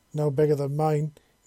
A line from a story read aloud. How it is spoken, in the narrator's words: he said, copying her